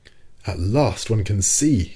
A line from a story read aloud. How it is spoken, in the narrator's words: cried Ned Land